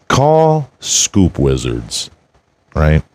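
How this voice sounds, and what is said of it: Suddenly very low-pitched voice. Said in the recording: “my voice went super low there”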